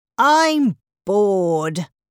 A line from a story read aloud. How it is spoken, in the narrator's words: cried Jack